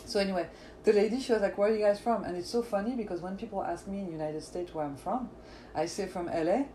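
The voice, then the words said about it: French accent. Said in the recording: “you know, the French accent. Of course. You guys cannot get over it ... I need to know where that accent is from.”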